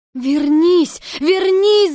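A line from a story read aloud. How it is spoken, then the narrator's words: Crying shout. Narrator (Russian): закричала Элли и с плачем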